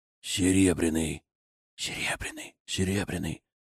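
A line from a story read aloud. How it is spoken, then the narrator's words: Uncertain whispers. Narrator (Russian): Послышались неуверенные шепотки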